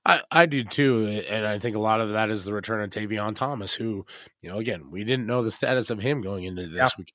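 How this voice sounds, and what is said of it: Raspy, hoarse voice. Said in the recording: “raspy as my voice is right now”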